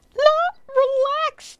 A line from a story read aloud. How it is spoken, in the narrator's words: Poppleton cried